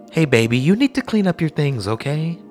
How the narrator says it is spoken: She said kindly

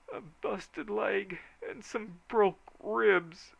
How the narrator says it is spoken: moaned the victim on the litter

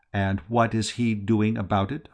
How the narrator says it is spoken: inquired stiffly

